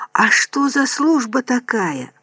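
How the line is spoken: Whispered. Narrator (Russian): прошептал Бенедикт

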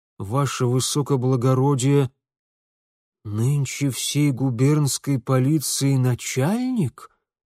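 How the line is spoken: Dejected voice. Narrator (Russian): Упавшим голосом закончил

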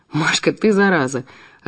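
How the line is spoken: Laughing. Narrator (Russian): рассмеялся Ив

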